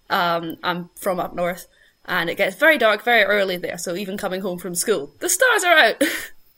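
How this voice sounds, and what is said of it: Thick Scottish accent. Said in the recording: “the very thick Scottish accent”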